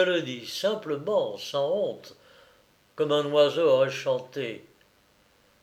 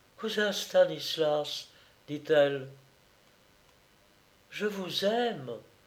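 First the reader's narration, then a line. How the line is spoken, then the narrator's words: Soft half-voice. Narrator (French): doucement à mi-voix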